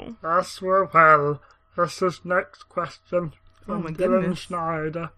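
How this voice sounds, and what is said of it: Usual voice. Nothing is said of it.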